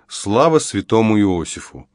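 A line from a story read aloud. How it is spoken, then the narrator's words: Mumbled. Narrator (Russian): промямлил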